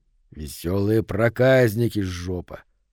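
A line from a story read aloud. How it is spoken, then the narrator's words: Gruff grumble. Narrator (Russian): буркнул Говард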